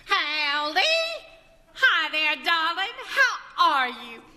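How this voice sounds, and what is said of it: Bad put-on Southern US accent. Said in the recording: “my Irish accent ... That's not Irish. That's a bad southern accent.”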